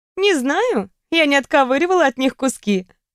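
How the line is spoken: Laughing reply. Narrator (Russian): рассмеялась я в ответ

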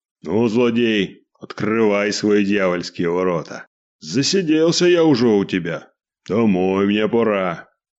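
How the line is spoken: Satisfied deep bass voice. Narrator (Russian): удовлетворенно пробасил

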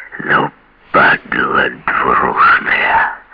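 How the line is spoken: Quiet. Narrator (Russian): тихо сказал

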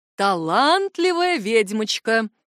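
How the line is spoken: Booming drone. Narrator (Russian): прогудел ректор

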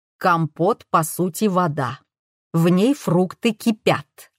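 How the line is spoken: Plain. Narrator (Russian): ответила Фаина

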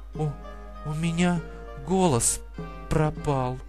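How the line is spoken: Strained whisper. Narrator (Russian): Она с трудом прошептала

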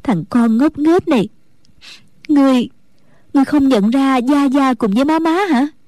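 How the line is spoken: Tearful, smiling. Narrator (Vietnamese): Mẫn Nhu hai mắt đẫm lệ, mỉm cười nói

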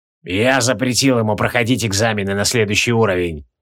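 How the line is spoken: Wheezed. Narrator (Russian): просипел Тевилдорм

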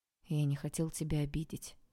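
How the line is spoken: Quiet. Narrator (Russian): тихо сказал Олег

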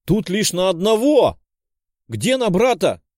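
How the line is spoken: Girl shouting. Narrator (Russian): прокричала девушка

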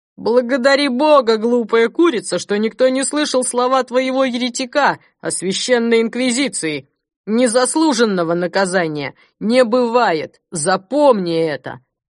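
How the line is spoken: Booming voice from above. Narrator (Russian): Прогремели над головой слова

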